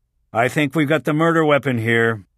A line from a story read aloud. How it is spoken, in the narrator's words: he called out